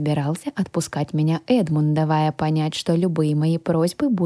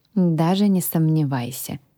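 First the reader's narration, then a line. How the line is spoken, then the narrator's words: Sigh. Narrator (Russian): вздохнула я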